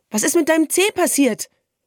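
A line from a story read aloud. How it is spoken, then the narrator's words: Calling after a sparrow. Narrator (German): rief dem Spatz nach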